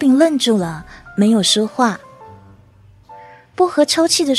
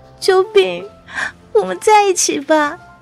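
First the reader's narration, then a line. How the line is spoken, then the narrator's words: Crying. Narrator (Chinese): 薄荷边哭边说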